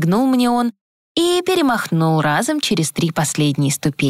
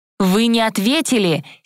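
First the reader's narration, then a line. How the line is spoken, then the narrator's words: Angry call. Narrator (Russian): сердито окликнула я детектива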